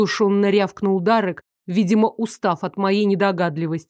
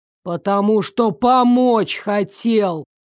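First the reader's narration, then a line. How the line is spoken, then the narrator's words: Howling. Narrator (Russian): Взвыл Дарек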